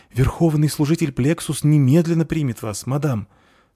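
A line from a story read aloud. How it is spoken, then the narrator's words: Frightened. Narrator (Russian): сказала она испуганно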